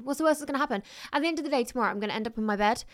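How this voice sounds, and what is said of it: Very fast nervous speech. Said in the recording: “I'm talking really fast ... Am I talking really quickly? I am, aren't I?”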